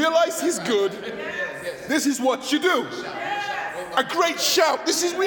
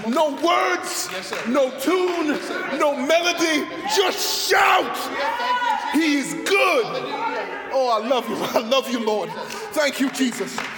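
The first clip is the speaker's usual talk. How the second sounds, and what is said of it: Guttural shouting. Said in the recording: “Now I'm just shouting. ... This feels guttural to me. This feels from the stomach to me. Like I'm shouting now.”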